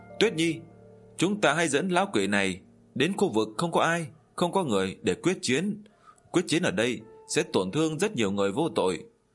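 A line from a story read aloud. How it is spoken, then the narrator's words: Hurried cry. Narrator (Vietnamese): Diệp Chi Thu cũng vội vàng kêu lên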